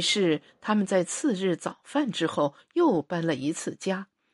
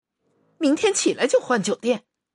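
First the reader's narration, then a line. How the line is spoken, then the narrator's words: Sudden angry speech. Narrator (Chinese): 他突然生起气来， 对着黑暗怒气冲冲地说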